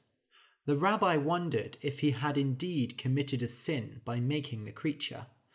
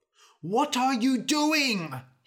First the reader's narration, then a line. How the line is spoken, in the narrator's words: He cried